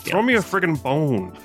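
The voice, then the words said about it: Dr. Evil character impression. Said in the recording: “my impression of Dr. Evil”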